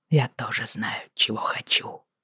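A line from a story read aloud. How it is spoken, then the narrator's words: Murmured into ear. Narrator (Russian): пробормотал он мне на ухо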